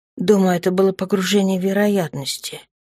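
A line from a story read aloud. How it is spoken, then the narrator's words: Hoarse mumble. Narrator (Russian): хрипло пробормотала девушка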